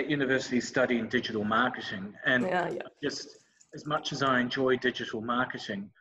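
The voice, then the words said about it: New Zealand accent. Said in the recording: “because I'm a Kiwi ... I'm sure the accent probably shines through”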